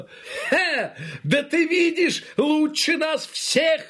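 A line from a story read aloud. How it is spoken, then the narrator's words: Exclaimed. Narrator (Russian): воскликнул он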